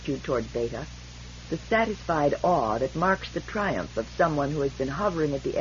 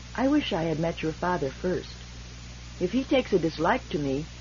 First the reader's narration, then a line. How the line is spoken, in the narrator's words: She said gravely